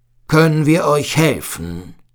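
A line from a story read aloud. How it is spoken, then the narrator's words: Thundering voice. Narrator (German): fragte mit donnernder Stimme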